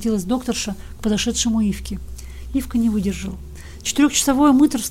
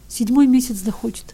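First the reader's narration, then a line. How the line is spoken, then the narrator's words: Answering through tears. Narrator (Russian): отвечал Ивка все еще сквозь слезы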